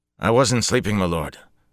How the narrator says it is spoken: the fellow said quickly

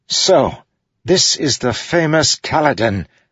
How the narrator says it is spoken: the man exclaimed

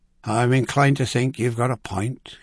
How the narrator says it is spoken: he sighed

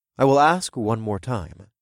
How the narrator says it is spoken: I said in a calm voice

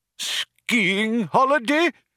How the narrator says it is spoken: cried the old man

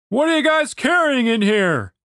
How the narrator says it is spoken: Chaz shouted over the loud crunch of chain against chain

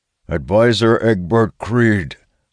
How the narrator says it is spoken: Warden Quinn declares, his voice carrying loud enough for everyone to hear

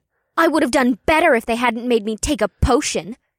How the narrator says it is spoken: Una huffed in an angry voice

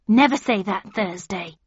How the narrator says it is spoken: said Gran so sharply I jumped, and she had to rest for a moment to get her breath back

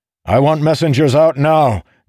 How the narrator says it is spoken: Dalinar bellowed

